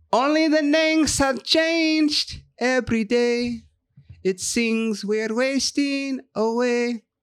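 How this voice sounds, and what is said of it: Singing in a put-on Mexican accent. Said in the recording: “I sang it with like a Mexican accent”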